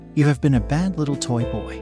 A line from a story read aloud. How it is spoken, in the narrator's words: she said calmly